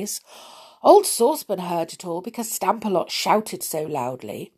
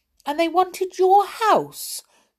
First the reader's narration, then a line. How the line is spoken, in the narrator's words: cried Rick